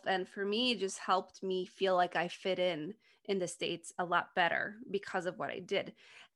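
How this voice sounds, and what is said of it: Slight non-native English accent. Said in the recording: “I still have a bit of an accent, but it's just not strong at all”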